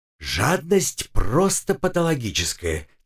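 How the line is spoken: Quiet whisper. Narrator (Russian): тихо шепнула мне Маринка

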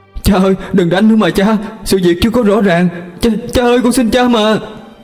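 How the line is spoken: Pleading. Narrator (Vietnamese): cô quay sang cha mình mà nài nỉ

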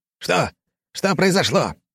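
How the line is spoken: Shouting. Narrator (Russian): кричал Джеймс, глава рода

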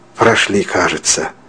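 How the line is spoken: Relieved sigh. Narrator (Russian): облегченно вздохнул Мещерский

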